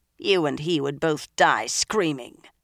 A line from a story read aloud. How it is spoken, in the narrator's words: the blue-eyed Suldam put in harshly